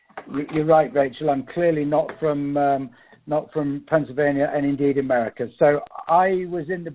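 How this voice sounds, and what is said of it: Non-American English accent. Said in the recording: “our listeners can probably tell from your accent that you aren't a Franklin County native”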